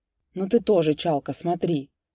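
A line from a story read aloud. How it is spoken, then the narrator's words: Muttering. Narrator (Russian): пробормотал Битюгов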